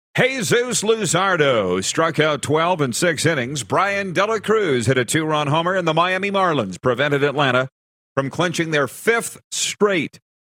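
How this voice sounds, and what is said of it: Baseball announcer voice. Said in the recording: “my baseball voice”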